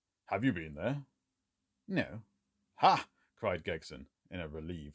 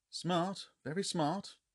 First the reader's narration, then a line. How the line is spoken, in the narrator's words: murmured Sherlock Holmes